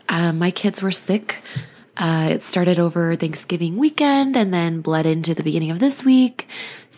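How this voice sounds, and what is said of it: Hoarse voice from a cold. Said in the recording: “I apologize for my hoarseness. I have a cold.”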